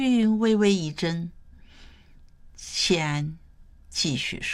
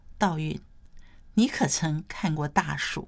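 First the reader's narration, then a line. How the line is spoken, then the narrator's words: Soft, after long pause. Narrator (Chinese): 谢安没有立即回答，过了许久，他才轻声说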